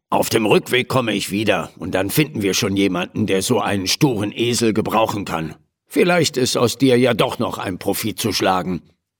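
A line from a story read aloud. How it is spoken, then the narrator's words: Murmured. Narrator (German): murmelte der Händler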